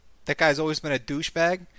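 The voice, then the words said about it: Brief slip into an accent. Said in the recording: “a little accent came out there”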